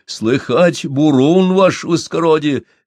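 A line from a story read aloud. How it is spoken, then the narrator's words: Uncertain shout. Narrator (Russian): неуверенно крикнул матрос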